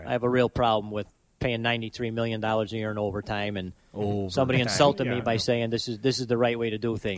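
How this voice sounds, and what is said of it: Classic Chicago accent. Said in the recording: “The classic Chicago accent.”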